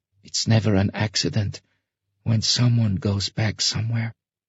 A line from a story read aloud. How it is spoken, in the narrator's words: Sasha whispered